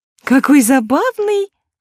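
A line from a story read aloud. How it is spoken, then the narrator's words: Exclamation. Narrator (Russian): воскликнула подружка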